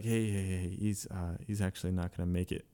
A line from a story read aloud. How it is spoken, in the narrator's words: another drill instructor would come up to him and whisper in his ear